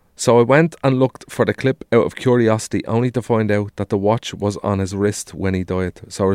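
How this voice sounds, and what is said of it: Usual voice. Nothing is said of it.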